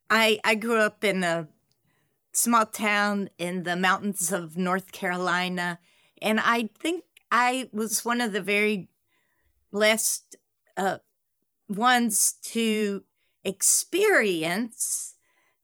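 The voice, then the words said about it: Carolinas American accent. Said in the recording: “I love your accent, by the way. You're from the Carolinas.”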